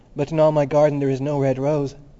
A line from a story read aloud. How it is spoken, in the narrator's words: cried the young student